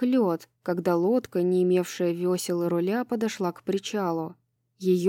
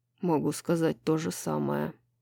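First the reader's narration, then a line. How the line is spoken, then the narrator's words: Muttered. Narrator (Russian): пробормотал Хант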